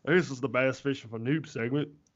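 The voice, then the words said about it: Imitates another person's voice. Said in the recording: “that's a pretty good impression... That's freaking spot on... That's pretty much spot on, dude.”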